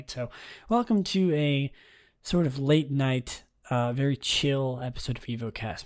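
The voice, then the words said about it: Quiet, mellow, tired voice. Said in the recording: “I don't want to be too loud, too um, you know energetic tonight ... my voice might sound a little bit more mellow, a little bit more, um, you know, drawn back ... I need to be a little quiet. And also, my voice is pretty tired”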